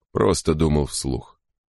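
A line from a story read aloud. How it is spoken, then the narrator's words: Mumble. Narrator (Russian): пробормотал Крози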